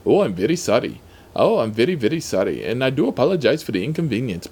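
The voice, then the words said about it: Put-on different accent. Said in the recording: “except in a different accent”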